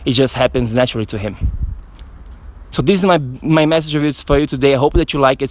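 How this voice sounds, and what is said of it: Out of breath, breathing hard. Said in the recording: “I'm like still breathing hard because of the the training”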